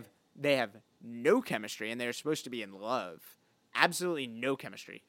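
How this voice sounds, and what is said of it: Usual voice. Nothing is said of it.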